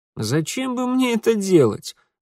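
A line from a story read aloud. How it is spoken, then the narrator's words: Scoffing grunt. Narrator (Russian): хмыкнул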